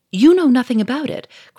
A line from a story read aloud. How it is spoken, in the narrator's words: cried Monsieur Fourmery, losing his temper